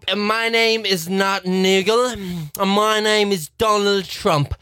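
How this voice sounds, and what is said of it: Imitates another person's voice. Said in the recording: “your best Donald Trump”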